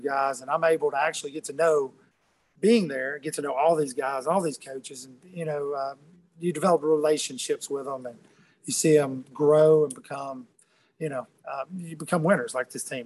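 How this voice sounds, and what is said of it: Alabama Southern accent. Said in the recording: “your accent gives you away. Who you're rooting for ... wanted Alabama to win”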